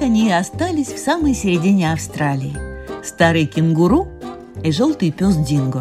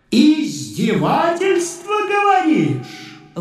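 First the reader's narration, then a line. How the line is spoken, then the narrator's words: Shout. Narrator (Russian): выкрикнул Нконг из своей ванны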